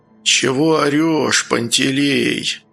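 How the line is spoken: Quiet, hoarse voice. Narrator (Russian): Раздался сзади сгрудившихся у торопыги маршалов тихий и хриплый голос

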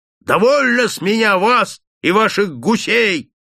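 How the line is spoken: Yelling. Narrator (Russian): орал он

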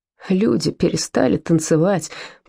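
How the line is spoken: Groaned. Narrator (Russian): простонал Вольфганг

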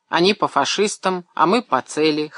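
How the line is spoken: Snort. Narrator (Russian): хмыкнул Павел

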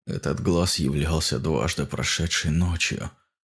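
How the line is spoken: Awed whisper. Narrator (Russian): прошептал он с благоговейным трепетом

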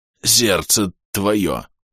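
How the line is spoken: Ghostly rasp. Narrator (Russian): прохрипел призрак

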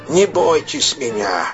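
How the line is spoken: Creaky voice. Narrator (Russian): скрипучим голосом сказал незнакомец

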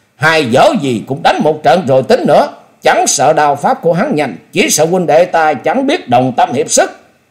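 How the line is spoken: Loud shout. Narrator (Vietnamese): Từ Ngũ Phúc cũng hét lớn rồi bội thêm

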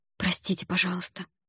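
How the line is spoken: Mumbled. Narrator (Russian): пробормотала

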